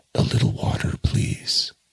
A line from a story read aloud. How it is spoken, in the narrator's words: As soon as he could speak, he murmured